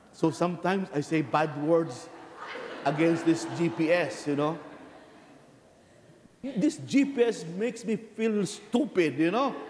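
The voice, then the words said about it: Speaks with a noticeable accent. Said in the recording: “because of my accent ... Is my accent so bad?”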